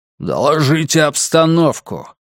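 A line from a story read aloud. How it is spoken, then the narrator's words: Growled. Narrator (Russian): прорычал один из бойцов в черном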